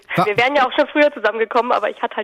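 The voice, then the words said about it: Voice still slightly hoarse from cold. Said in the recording (German): “ich war erkältet ... das hört man immer noch ein bisschen ... man hört es leider immer noch ein bisschen”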